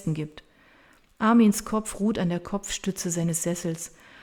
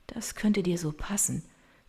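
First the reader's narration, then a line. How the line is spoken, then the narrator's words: Quiet voice. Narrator (German): sagt sie mit leiser Stimme und spürt, wie ihr eine einzelne Träne die Wange herunterrollt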